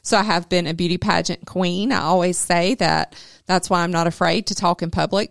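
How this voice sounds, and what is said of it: South Georgia Southern accent. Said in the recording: “I come from South Georgia, if you couldn't tell by my accent”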